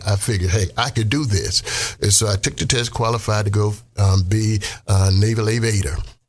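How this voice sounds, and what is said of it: Mississippi Southern American accent. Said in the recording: “I'm from Mississippi. I had an accent.”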